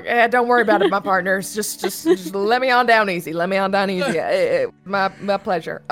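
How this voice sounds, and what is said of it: Put-on Southern accent. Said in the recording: “he does a southern accent when he's speaking in bullywug”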